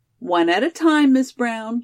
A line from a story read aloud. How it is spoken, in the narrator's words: laughed Judy